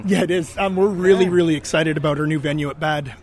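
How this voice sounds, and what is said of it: Hoarse, strained, nearly lost voice. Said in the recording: “I barely have a voice”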